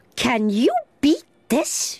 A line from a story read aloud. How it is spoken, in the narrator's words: she cried suddenly